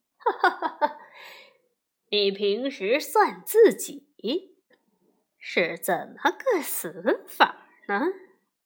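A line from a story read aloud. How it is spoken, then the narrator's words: Hearty laughter. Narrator (Chinese): 费仲哈哈大笑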